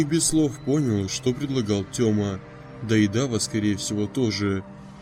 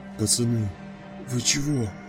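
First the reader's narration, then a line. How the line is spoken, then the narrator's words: Hoarse rasp. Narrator (Russian): прохрипел Толик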